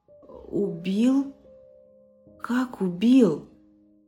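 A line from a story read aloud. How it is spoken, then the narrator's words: Stammering question. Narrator (Russian): заикаясь, спросил Дмитрий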